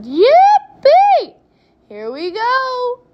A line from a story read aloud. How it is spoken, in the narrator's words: Grandpa shouted